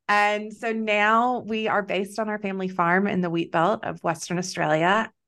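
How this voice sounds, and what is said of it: Texan American accent. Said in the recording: “if you can't tell from my accent, I'm not from here. I'm originally from Texas.”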